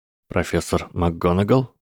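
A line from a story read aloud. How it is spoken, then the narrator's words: Boy speaking quietly. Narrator (Russian): тихо произнес мальчик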